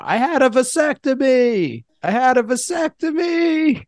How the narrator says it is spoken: he just like is screaming across the dance floor

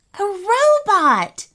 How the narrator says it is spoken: said Rami, a little too loudly

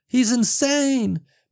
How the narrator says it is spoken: Penny screamed over the gunfire

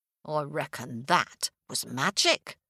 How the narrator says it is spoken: muttered the farmer's wife

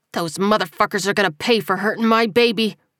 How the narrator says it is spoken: Calvin growled

